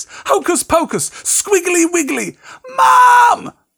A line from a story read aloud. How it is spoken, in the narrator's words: howled Dudley, tripping over his feet as he dashed back toward the house